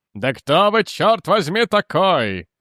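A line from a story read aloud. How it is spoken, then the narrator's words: Shout. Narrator (Russian): заорал Лэнгтон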